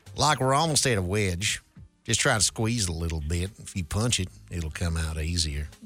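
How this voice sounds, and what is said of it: Put-on Southern accent. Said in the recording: “This one is also calling for a Southern accent, and I will oblige.”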